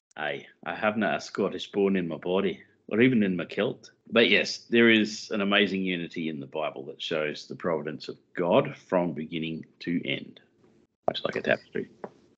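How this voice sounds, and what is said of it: Put-on Scottish accent. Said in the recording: “a very interesting interpretation of the Scottish accent”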